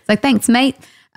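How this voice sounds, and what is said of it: Bad put-on Australian accent. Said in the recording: “sounds Australian ... really bad at accents”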